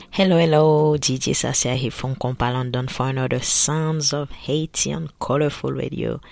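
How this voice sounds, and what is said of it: Odd, worn-sounding voice. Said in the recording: “my voice is quite funny because I had a pretty interesting weekend. So I'm still recovering, so forgive my funny voice”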